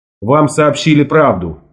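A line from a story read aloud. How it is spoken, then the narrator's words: Plain. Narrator (Russian): ответил я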